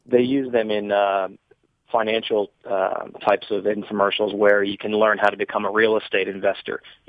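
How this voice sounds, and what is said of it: Slightly raspy voice. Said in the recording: “my voice is a little raspy today”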